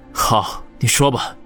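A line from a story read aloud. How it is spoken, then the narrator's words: Deep voice after tears. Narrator (Chinese): 王宇拭去脸上的泪水，沉声的说道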